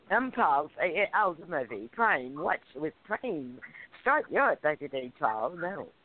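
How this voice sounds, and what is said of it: Put-on British accent. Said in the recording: “brush up on your British accent... Now, I'm going to do mine... That was a jolly good example”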